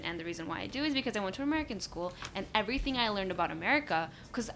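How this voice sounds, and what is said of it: American English accent. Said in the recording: “you can say I have an American accent”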